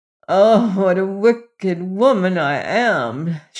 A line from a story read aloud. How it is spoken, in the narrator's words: she moaned and began crying lamentably